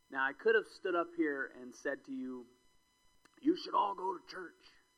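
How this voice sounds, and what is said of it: Oklahoma accent. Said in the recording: “an Oklahoma accent”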